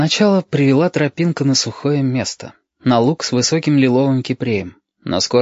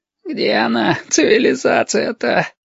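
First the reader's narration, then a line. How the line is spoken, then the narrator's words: Exhausted groan. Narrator (Russian): простонал изнемогший лосьон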